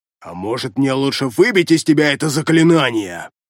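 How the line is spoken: Snapping retort. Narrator (Russian): Огрызнулся электроник

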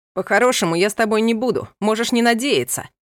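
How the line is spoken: Shouted. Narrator (Russian): прокричал он

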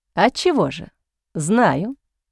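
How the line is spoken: Slow speech. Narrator (Russian): медленно произнес Энтони

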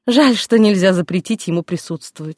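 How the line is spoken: Sigh. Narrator (Russian): вздохнула Саша

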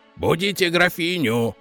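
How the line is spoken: Barked. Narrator (Russian): рявкнул Бёрр

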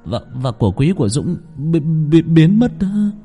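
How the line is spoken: Stammering. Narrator (Vietnamese): Và Quân lắp bắp

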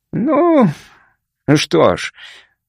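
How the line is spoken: Good-natured grumble. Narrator (Russian): добродушно буркнул

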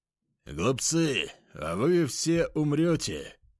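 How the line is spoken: Loud and menacing. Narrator (Russian): Весьма грозно и громко произнес Гензельмант, наш кладовщик

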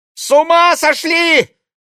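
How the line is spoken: Frightened shriek. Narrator (Russian): испуганно взвизгнула Ксения Монро

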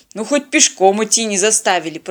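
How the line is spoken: Grumbling. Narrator (Russian): проворчал капитан

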